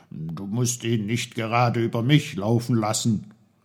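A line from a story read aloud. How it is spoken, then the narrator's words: Shouting. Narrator (German): rief er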